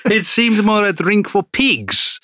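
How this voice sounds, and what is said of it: Put-on Italian accent. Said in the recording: “I won't do it in an Italian accent. ... I will.”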